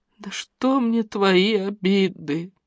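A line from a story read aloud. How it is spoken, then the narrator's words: Trembling old woman's voice. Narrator (Russian): проговорила дрожащим голосом прабабка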